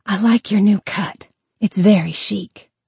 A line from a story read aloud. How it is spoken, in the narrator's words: Vanessa whispered to Evelyn